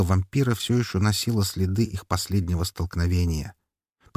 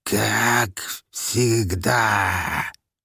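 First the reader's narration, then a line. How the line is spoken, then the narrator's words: Hiss with strange accent. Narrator (Russian): со странным акцентом прошипела тварь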